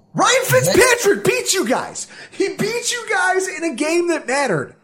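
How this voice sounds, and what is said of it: Yelling, emotional. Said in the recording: “I'm sorry I'm yelling. ... I'm emotional.”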